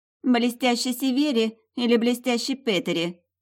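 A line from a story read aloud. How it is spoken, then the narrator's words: Snide, wounded query. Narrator (Russian): ехидно уточнила уязвленная Вильда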